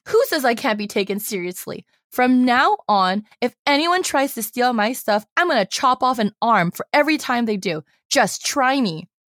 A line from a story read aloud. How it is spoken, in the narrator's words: Wei Wuxian shouts